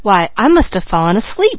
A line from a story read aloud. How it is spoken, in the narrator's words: she cried